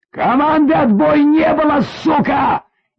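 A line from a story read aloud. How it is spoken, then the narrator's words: Hysterical yelling. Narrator (Russian): истерически заорал майор, словно урка, подзаводя себя криком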